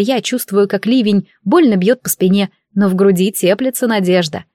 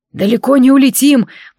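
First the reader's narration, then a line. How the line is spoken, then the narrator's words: Growled through clenched teeth. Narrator (Russian): прорычал Змеулан сквозь стиснутые зубы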